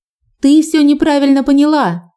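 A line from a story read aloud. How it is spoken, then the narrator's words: Shrieked. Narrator (Russian): завизжала она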